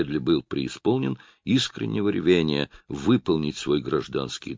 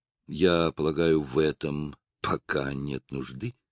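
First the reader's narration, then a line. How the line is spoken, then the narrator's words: Soft reply. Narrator (Russian): мягко ответил Роджер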